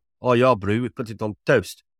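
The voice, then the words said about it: Poor put-on South African accent. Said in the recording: “the South Africans that do listen for that accent that he just did ... that accent might get you into the England side ... the accent was on a par with his cricketing abilities”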